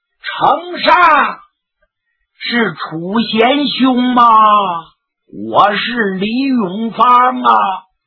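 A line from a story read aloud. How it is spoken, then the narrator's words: Straining, loud call. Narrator (Chinese): 李永芳攒足气力，扩大声音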